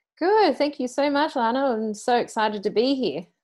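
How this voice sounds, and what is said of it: Australian accent. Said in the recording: “with an Aussie accent”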